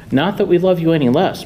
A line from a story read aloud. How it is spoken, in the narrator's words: my mother chirped